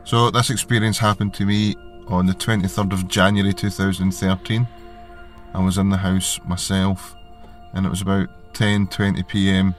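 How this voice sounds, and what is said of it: Scottish accent. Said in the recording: “calling from a small town in Scotland ... my accent can be hard to understand sometimes”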